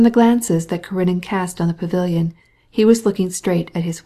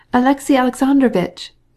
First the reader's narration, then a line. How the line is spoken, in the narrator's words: cried the Princess Betsy